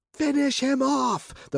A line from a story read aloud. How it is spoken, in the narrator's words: the princess squealed